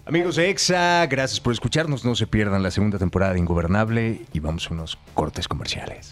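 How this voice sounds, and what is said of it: Radio announcer voice. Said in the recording (Spanish): “Tienes voz de locutor ... ¿Tiene voz sexy. ... Así como locutor de radio.”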